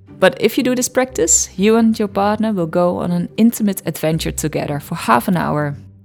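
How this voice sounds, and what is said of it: Dutch accent. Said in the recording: “my Dutch accent”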